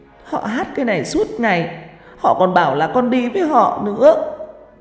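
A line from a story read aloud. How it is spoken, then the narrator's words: Tearful, whimpering child. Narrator (Vietnamese): con bé, mắt ứ nước, nó nói trong tiếng mếu máo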